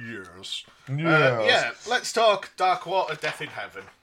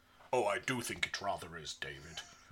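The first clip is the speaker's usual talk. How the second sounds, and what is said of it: Imitates another person's voice. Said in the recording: “everyone knows I do a mean Tom Baker impression ... There's my Tom Baker impression.”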